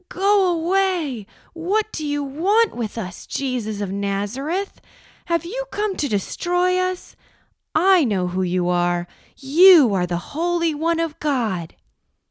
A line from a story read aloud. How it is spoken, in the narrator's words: He cried out at the top of his voice